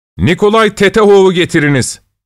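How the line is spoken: Shouting. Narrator (Turkish): diye bağırdı

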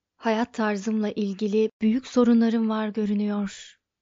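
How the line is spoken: Muttered to oneself. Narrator (Turkish): diye mırıldandı kendi kendine

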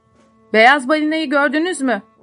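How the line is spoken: Shouted. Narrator (Turkish): diye bağırdı

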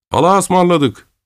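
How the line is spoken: Shouting. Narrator (Turkish): diye bağırdı

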